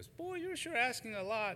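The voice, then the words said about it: Imitated Southern accent. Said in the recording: “in her southern accent.”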